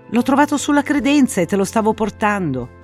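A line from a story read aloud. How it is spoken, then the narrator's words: Woman exclaiming. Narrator (Italian): aveva esclamato lei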